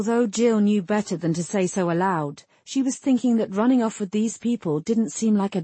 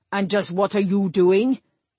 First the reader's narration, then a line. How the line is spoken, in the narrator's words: Cullen snapped